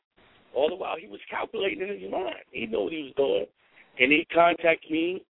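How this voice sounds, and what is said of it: New York accent. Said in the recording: “I'm loving the New York accent ... that whole New York feel”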